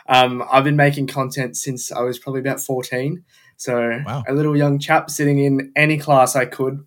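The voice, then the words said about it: Australian accent. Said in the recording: “I know from your accent... You're not from these parts, are you?... I'm from Melbourne, Australia”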